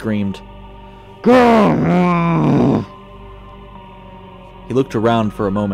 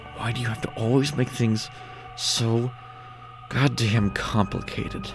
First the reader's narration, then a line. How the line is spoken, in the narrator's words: Dennis asked under his breath